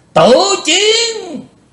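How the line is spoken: Demonic roar. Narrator (Vietnamese): Lý Vân Hạo gầm to như quỷ giống

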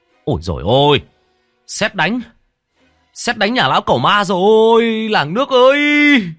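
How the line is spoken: Man's panicked wail. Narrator (Vietnamese): Có tiếng một người đàn ông rú lên

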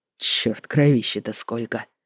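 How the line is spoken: Gruff grumble. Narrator (Russian): буркнул он

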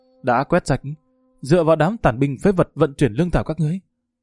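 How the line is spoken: Group's loud mocking laughter. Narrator (Vietnamese): Địch Thương Hải cùng quân sĩ phía sau hắn đồng loạt cười lớn

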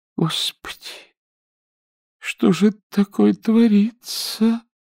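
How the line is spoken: Moaning. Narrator (Russian): простонала Нюра

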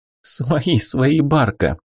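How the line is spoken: Laughing. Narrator (Russian): засмеялась Вика

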